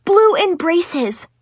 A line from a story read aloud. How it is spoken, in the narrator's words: I practically screamed